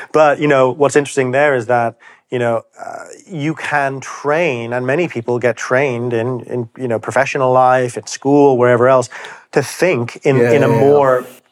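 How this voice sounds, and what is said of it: Slight international school accent. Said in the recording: “I detect a slight accent. ... half Irish, half German, but this is an international school accent”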